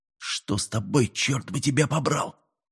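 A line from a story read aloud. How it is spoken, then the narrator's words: Quiet question. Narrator (Russian): тихо спросил капитан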